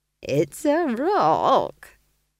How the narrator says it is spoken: chuckled Nanny Ogg

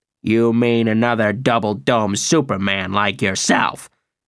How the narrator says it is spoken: Graham spat out the words

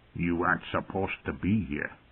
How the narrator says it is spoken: muttered sourly

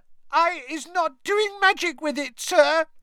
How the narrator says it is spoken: squealed Winky, tears streaming down the sides of her squashed and bulbous nose

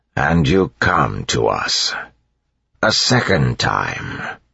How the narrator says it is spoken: said an inquisitor in his grinding voice

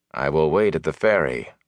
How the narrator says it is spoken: Lan said flatly

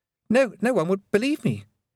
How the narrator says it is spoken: he stammered

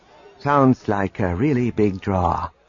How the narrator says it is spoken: Wedge said dryly

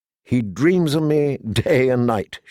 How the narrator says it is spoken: she laughed

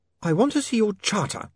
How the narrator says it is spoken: Saccharissa snapped

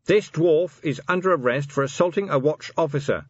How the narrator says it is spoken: he shouted

